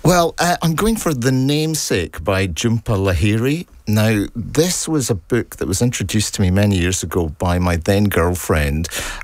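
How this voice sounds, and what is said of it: Scottish accent. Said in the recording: “Another Scottish accent”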